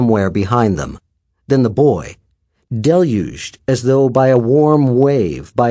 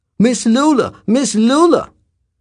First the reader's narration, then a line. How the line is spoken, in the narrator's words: The Negro was shouting